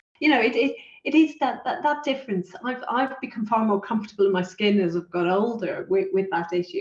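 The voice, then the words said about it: Irish accent, deliberately slowed speech. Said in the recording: “I've an Irish accent. ... I slow down, because Irish people talk way too quickly.”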